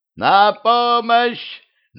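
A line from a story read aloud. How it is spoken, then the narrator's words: Woman screaming while being strangled. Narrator (Russian): закричала повелительница, когда Дюдя повалил ее на пол и стал душить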